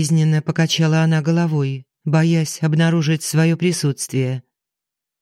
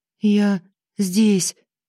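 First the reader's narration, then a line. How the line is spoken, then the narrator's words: Timid, strange-sounding young woman. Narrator (Russian): робко произнесла девушка и не узнала собственный голос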